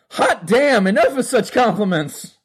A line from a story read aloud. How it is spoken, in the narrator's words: cried Porthos